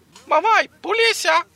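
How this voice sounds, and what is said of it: Imitates a parrot's voice. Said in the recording (Portuguese): “A imitação já valeu, já.”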